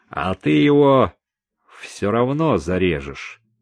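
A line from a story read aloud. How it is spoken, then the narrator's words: Gloomy remark. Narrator (Russian): мрачно добавил Хосе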